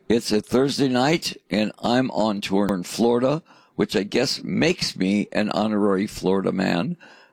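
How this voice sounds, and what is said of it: Raw, croaky voice. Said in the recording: “my voice sounds a little bit raw and croaky, it's because we've been doing three shows, one day off ... So my voice a little bit croaky.”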